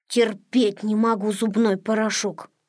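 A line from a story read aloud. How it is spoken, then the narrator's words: Grumbling. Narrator (Russian): проворчал Незнайка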